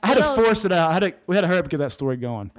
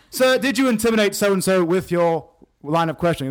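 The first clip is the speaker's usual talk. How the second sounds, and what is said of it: English accent drifting into American. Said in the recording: “You started out with a really good English accent there ... it just morphed into American.”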